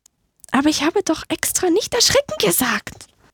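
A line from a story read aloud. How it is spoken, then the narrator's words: Squeaky little mouse. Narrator (German): piepste die kleine Maus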